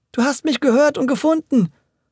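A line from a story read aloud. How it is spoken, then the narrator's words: Joyful call. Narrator (German): rief Audencio voller Freude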